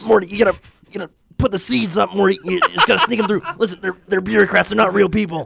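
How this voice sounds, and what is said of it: Impression of Rick from Rick and Morty. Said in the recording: “I can do a Rick voice.”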